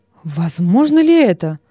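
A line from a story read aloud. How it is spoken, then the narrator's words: Exclamation. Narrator (Russian): воскликнул Нерон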